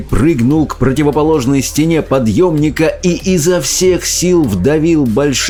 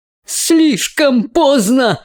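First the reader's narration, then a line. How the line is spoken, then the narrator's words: Exclaiming. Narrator (Russian): воскликнул мистер Уонка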